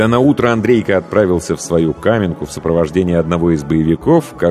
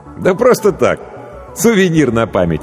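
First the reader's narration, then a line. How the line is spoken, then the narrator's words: Laughing. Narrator (Russian): рассмеялся профессор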